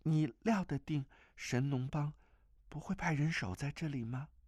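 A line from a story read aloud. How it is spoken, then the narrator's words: Trembling, frightened voice. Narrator (Chinese): 那声音微微发颤，显得甚是害怕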